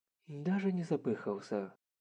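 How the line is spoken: Quiet. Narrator (Russian): тихо произнесла Мэри

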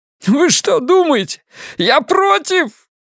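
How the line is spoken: Shouted out. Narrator (Russian): выкрикнул Биллингс

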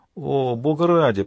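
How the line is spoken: Groaning priest. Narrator (Russian): простонал отец Томас

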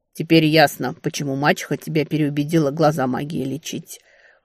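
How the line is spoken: Wry snort. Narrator (Russian): хмыкнул чародей

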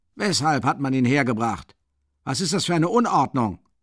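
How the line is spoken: Shout while rushing. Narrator (German): rief Porfiri Petrowitsch zur Tür stürzend

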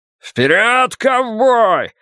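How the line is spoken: Yell. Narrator (Russian): завопил Ллойд

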